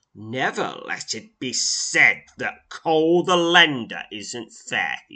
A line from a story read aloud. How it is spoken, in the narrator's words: snarls